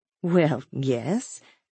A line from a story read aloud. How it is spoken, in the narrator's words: she murmured